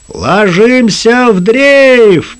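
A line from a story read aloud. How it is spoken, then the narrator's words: Thunderous command. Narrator (Russian): приказал капитан громовым капитанским голосом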